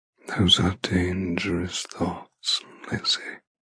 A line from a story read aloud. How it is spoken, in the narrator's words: he murmurs